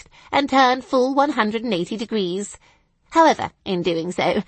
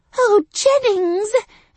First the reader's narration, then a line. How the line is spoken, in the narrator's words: I exclaimed